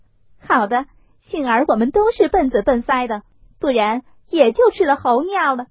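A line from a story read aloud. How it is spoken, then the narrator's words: Laughing. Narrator (Chinese): 凤姐儿笑道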